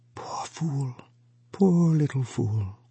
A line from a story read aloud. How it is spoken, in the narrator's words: he whispered softly